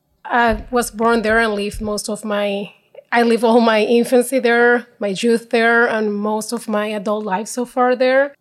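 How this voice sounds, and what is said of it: Spanish accent. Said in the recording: “her Spanish accent is strong”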